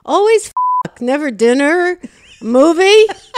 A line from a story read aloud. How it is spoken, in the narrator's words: I don't want to show my fear, so I somehow yelled back